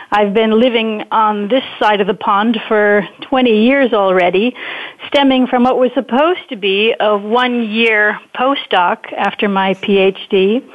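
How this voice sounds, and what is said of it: American accent, from Wisconsin. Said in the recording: “perhaps they can already hear it in my accent ... I'm actually an American transplant in Europe, originally from Wisconsin”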